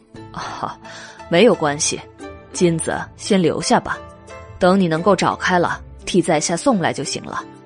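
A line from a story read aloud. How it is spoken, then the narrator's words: Smiling. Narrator (Chinese): 于润之笑了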